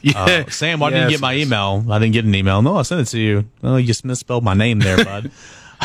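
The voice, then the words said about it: Imitates another person's voice. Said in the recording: “That was a Goodwill West impersonation.”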